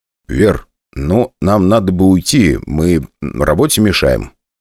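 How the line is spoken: Quiet. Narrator (Russian): тихо сказал я

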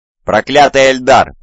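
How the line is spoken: Defeated war machine growling. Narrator (Russian): прорычал поверженный дредноут

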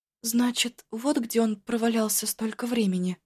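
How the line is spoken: Muttered. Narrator (Russian): пробормотала оба

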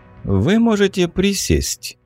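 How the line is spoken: Smirking grunt. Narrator (Russian): хмыкнул Мороз

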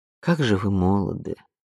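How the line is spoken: Sad sigh. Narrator (Russian): печально вздохнула Анук

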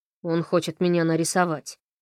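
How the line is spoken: Snorting. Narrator (Russian): она хмыкнула

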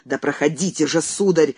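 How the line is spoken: Angry shout. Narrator (Russian): зло прикрикнул он на Андрея

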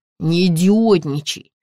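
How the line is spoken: Through gritted teeth. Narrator (Russian): сквозь зубы произнес чернокожий

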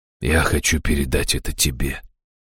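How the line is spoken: Gentle. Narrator (Russian): мягко проговорил старший Рэмэй

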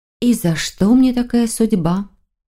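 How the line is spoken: Sorrowful sigh. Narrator (Russian): Маргарита сокрушенно вздохнула

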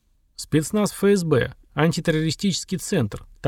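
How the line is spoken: Quiet and cold, major. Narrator (Russian): также негромко, холодно пояснил майор

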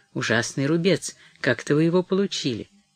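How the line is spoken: Involuntary mutter. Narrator (Russian): невольно пробормотал

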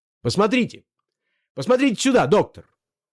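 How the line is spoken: Shouted. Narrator (Russian): крикнул Андрей Ильич

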